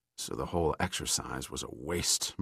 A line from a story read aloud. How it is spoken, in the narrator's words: murmured Sandecker